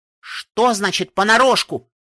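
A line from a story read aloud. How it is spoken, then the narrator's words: Nearly shouting. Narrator (Russian): Едва не крикнула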